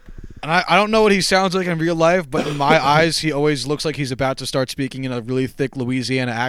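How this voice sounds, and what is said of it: Usual voice. Nothing is said of it.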